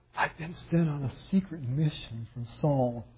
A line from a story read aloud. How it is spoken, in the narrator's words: lying through his teeth, and he tells the priest